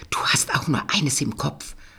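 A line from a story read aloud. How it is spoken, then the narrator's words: Annoyed mutter. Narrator (German): murmelte ärgerlich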